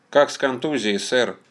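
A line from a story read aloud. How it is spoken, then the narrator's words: Plain. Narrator (Russian): спросил Кирилл Данилов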